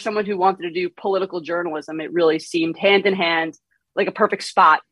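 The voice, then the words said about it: New York accent. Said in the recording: “I detect a Northeast accent ... I've been told it's very thick ... I have a bit of a New York accent when I talk ... there is a twang”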